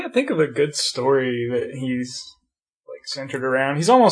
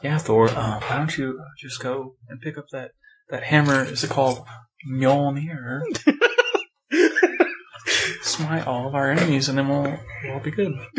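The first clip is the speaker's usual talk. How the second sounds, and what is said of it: Poor imitation of another person's voice. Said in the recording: “really bad Jeff Goldblum impression... It's bad”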